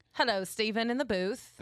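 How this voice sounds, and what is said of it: Put-on British accent. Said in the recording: “Let's check your British accent real quick.”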